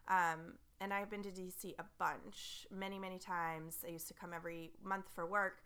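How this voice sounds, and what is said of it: Froggy, hoarse sick voice. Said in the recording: “I'm sick still, so my voice is all froggy”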